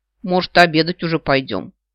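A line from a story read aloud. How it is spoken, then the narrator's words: Grumbling mutter. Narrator (Russian): пробурчала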